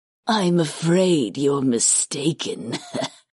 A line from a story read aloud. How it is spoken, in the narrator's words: Karth said with a single raspy laugh